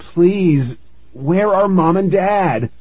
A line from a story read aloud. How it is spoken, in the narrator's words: I cried